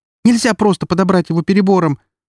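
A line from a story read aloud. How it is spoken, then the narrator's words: Hurried. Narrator (Russian): торопливо добавила Эри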